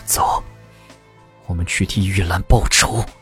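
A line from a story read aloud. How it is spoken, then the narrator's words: Deep grave voice. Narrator (Chinese): 木图沉声道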